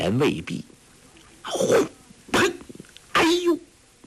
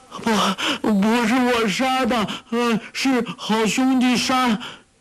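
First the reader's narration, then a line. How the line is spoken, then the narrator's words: Shouting. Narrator (Chinese): 傻姑叫道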